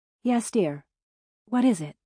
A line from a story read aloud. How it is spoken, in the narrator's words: the woman asked